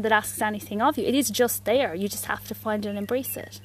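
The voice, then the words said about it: Irish accent. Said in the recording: “it's actually really nice hearing it in an Irish accent as well.”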